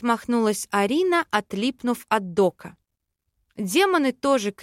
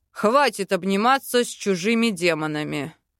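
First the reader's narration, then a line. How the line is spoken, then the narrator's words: Growled. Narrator (Russian): рыкнул Велитар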